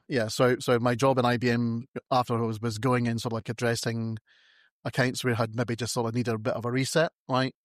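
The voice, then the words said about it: British accent. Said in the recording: “Started off in the UK, as you can tell by my amazing accent”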